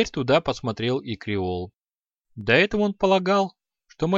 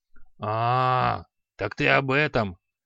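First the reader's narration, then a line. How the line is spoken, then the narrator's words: Grumbling mutter. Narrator (Russian): пробурчал Халай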